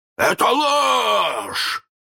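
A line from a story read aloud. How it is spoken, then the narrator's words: Hoarse roar. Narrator (Russian): хрипко взревел Крюк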